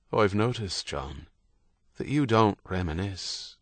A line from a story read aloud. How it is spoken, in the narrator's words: Herody said, his voice even